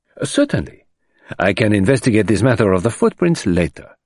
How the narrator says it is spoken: said Poirot cheerfully

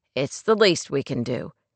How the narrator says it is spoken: Clay returned flatly

